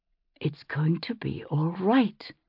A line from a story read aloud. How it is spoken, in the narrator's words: her mother whispered into her hair